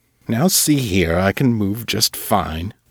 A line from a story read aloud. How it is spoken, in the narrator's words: Silas grumbled